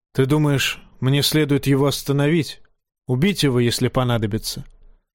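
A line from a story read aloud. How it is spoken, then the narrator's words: Old bear sighing. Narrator (Russian): Старый медведь вздохнул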